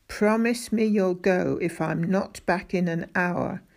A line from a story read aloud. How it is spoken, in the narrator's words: said Mrs